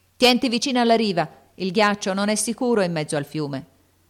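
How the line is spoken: Shouted. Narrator (Italian): Lori gridò

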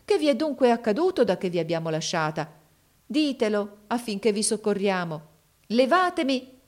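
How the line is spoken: Exclaiming woman. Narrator (Italian): esclamò essa

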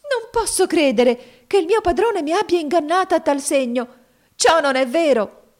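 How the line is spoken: Increasingly agitated exclamation. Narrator (Italian): esclamò la povera giovane con crescente agitazione d'animo

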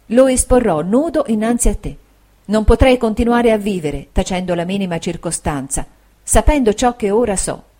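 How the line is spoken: Soft, subdued, tender. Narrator (Italian): ella disse con voce piana, sommessa e tenera

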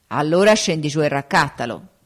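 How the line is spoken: Plain. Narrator (Italian): disse l'orco

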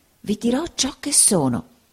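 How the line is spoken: Whispering. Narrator (Italian): bisbigliò il signor Creakle

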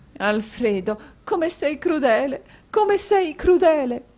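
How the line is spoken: Sobbing woman. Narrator (Italian): disse Madama Mantalini singhiozzando a quel terribile quadro

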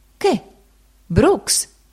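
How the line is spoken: Gentleman exclaiming. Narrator (Italian): il signore esclamò

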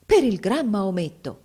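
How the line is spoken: Exclaimed. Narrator (Italian): esclamò

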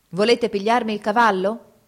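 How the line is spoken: Shout. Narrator (Italian): gridò

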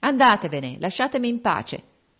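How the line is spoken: Unusually rude exclamation. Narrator (Italian): sclamò con tono sgarbato che non aveva usato mai

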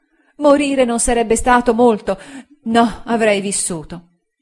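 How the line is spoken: Exclamation. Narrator (Italian): Ella esclamò

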